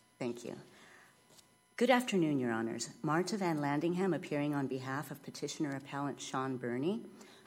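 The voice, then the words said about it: Slightly rough voice from a cold. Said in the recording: “I have a slight cold... My voice is a little rough”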